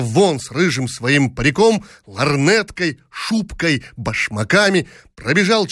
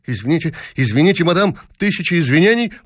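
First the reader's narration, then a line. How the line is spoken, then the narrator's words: Flustered muttering. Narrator (Russian): растерянно бормоча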